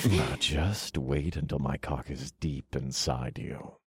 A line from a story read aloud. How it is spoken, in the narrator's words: I purred